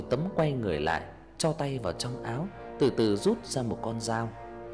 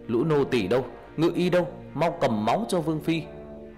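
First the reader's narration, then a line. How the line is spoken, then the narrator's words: Guard's loud shout. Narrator (Vietnamese): Người cận vệ hét lớn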